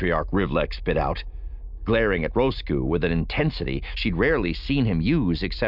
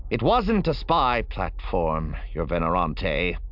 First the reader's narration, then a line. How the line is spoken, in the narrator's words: Roscoe said stiffly